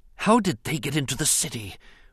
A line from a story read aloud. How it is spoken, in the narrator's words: Rune Hakko whispered in dismay